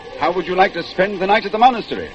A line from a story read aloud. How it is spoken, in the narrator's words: shouted the monk